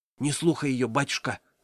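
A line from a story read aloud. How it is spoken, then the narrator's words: Whispering. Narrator (Russian): зашептала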